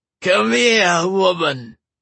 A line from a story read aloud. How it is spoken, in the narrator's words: the man slurred